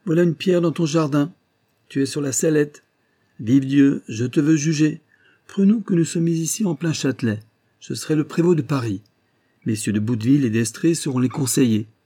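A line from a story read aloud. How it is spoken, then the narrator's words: Prince exclaiming. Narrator (French): s'écria le prince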